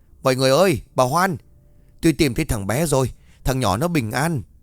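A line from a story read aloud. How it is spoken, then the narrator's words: Breathless joyful shouting. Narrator (Vietnamese): Vừa chạy bác vừa hú hét nói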